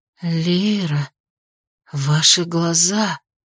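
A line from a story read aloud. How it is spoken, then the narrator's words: Whisper, changed tone. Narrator (Russian): прошептала Энера совсем другим тоном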